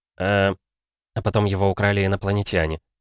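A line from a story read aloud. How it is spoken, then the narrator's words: Grumbling from behind. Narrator (Russian): проворчали из-за спины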